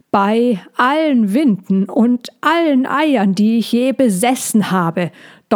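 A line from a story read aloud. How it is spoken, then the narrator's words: Old woman thundering on. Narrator (German): donnerte die alte Drechin weiter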